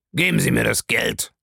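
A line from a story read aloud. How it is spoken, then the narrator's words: Grumbling. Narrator (German): brummte Bellamy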